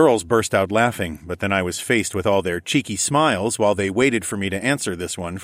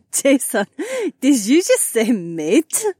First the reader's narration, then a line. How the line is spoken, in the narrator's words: Haywan laughed